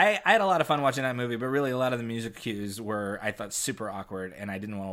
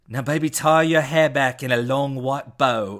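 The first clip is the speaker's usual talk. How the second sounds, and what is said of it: Put-on accent, well done. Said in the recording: “That was perfect. That was such a good accent.”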